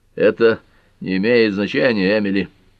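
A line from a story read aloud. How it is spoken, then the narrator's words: Hoarse. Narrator (Russian): хрипло произнес Тальбот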